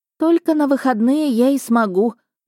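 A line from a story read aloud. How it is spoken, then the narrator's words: Sorrowful sigh. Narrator (Russian): горестно вздохнула Эвелотта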